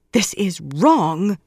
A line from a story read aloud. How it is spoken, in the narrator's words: Elid said fiercely